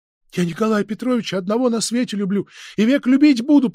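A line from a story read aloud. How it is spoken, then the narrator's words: Sudden force through sobs. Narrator (Russian): проговорила с внезапной силой Фенечка, между тем, как рыдания так и поднимали ее горло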